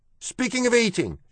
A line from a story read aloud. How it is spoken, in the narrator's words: shouted one of the rats